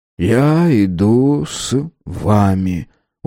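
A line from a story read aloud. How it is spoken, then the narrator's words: Tired. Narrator (Russian): устало произнес он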